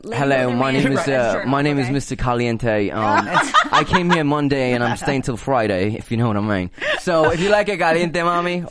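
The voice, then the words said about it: Put-on Spanish accent. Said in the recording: “a man with a Spanish accent”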